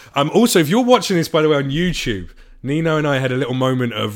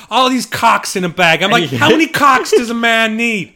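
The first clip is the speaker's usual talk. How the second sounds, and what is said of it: Imitates another person's voice, Bostonian. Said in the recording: “You got super Bostonian there ... best Bill Burr impression”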